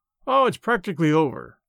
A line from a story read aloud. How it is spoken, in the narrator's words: I lied, cheerfully